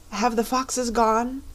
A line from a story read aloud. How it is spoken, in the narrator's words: it asked, in a trembling voice